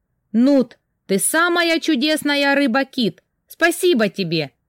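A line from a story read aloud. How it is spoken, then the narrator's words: Shouting after someone. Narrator (Russian): крикнула я ему вслед, не надеясь, что он меня услышит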